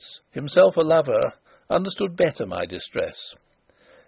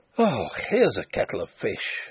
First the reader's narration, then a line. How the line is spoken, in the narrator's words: groaned